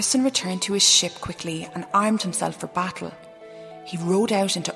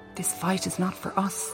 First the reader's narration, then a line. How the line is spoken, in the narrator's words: Tristan muttered to his men